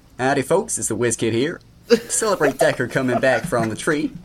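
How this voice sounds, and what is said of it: Put-on Southern US accent. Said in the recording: “I thought I'd do my finest Canadian accent ... This is not a Canadian accent. ... That's Southern, man. ... That is Southern. You went to the wrong side of North America, partner.”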